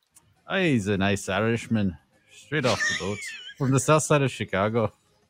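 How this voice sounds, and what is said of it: Put-on Irish accent. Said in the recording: “That's a really good accent, actually... You nailed that... Sometimes I venture from Ireland to Scotland when I'm doing the accents.”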